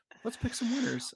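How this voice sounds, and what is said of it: NPR radio-host voice. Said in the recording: “now I come in with my NPR voice.”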